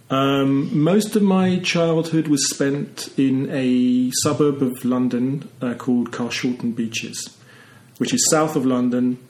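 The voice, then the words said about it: English accent. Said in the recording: “I don't know what makes you English. Maybe it's just my accent.”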